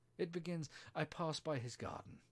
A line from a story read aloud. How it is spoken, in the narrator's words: she went on in a trembling voice